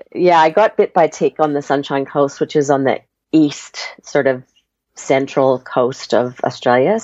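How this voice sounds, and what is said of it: Canadian accent with Australian influence. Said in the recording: “as you might hear from my accent, I'm Canadian born. Although my family thinks I now have an Australian accent ... I think you're halfway in between ... I'm a mixture, hybrid”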